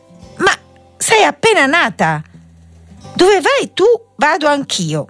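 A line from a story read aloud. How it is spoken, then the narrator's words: Little girl replying. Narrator (Italian): rispose la piccola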